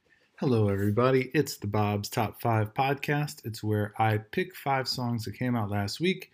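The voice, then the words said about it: Hoarse, strained voice. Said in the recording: “I feel like I'm losing my voice ... It's wrecking my voice.”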